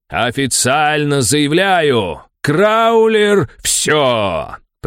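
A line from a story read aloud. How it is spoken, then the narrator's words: Roar. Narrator (Russian): проревел комментатор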